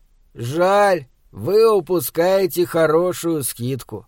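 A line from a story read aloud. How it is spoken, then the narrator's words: Drawl. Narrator (Russian): протянул продавец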